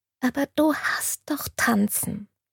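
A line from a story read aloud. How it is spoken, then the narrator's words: Whisper. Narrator (German): flüsterte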